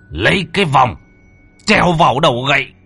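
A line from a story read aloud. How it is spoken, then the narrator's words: Agonized scream. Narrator (Vietnamese): hét lên thảm liệt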